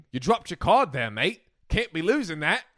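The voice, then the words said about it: Poor put-on Australian accent. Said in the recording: “A terrible Australian accent.”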